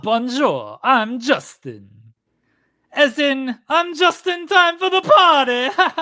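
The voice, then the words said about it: Put-on French accent. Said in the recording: “how are you going to do a French accent? ... How am I going to do a French accent?”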